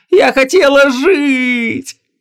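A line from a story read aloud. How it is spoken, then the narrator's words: Hysterical tearful scream. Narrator (Russian): Истошно завопила Гвиньола, размазывая слезы по лицу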